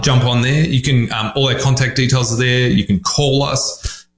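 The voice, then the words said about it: Australian accent. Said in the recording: “obviously I'm Australian, as you can tell by my glorious accent.”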